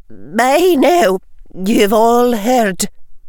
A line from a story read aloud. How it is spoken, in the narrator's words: she said, her voice not quite steady